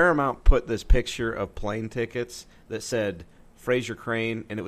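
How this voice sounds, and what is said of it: Usual voice. Nothing is said of it.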